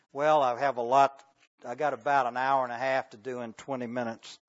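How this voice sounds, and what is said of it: Drawn-out Southern American accent. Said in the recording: “this southern accent ... drawing out so long”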